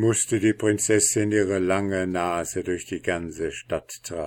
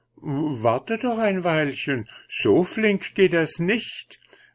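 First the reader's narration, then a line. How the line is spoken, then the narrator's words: Fussy, ceremonious call. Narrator (German): rief der Soldat und war dabei umständlich wie nur je ein alter Hofmarschall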